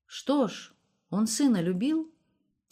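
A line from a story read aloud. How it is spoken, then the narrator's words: Quiet question. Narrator (Russian): тихо спросил Илья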